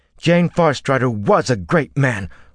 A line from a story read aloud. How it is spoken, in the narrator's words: Olver said fiercely